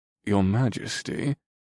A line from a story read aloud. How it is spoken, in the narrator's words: Scourge repeated in a hushed voice with a hint of sarcasm to it